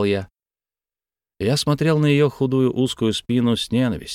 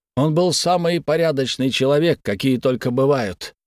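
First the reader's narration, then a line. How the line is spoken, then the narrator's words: Furious shout. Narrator (Russian): яростно выкрикнул я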